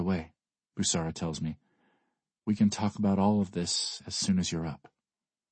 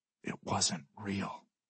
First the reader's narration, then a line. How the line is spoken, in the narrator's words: I whisper